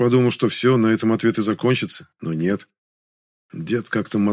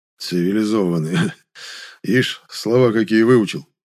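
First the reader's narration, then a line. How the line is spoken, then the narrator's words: Old man grumbling. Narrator (Russian): По обыкновению пробурчал дед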